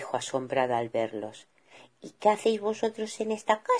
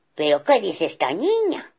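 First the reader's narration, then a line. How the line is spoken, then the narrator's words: Father bear exclaiming. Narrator (Spanish): exclamó papá oso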